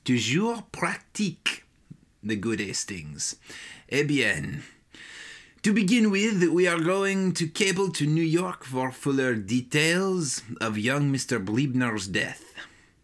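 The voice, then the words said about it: Put-on French accent. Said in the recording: “a French accent”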